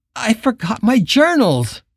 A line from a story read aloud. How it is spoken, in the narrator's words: moaned